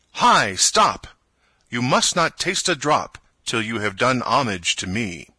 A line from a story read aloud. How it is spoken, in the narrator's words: he cried out in a loud voice